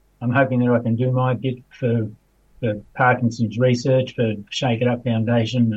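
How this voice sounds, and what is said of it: Emotional, wavering voice. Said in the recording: “you'd be able to tell with my voice, I'm a little bit emotional.”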